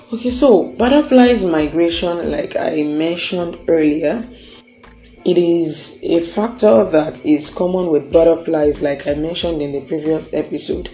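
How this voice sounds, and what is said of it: Strained, worn-out voice. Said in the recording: “apologize for my voice right now, the way it sounds is just because I've been stressed in the past week and it took a toll on my voice”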